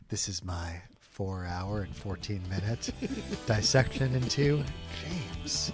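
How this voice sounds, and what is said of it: NPR radio announcer voice. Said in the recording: “NPR voice. ... Wow, that sounded pretty believable. ... Actually, yeah, you could pull that off.”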